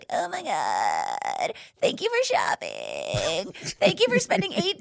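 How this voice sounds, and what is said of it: Exaggerated vocal fry voice. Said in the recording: “I love that voice ... It's my vocal fry.”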